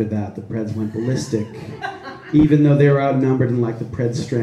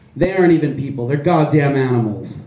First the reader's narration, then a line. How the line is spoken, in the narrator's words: an old man shouted